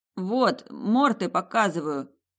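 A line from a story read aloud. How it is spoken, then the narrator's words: Mumbling. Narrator (Russian): промямлил мой куратор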